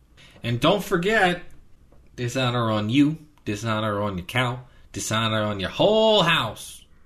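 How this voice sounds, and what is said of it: Imitates another person's voice, badly. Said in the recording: “my very, very bad Eddie Murphy impression”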